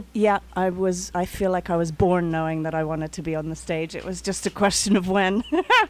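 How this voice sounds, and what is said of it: London English accent. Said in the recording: “I do detect an accent ... that lovely accent ... the accent comes from London”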